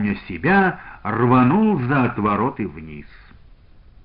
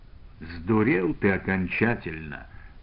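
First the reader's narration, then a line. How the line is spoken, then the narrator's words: Calm. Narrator (Russian): спокойно произнес Иван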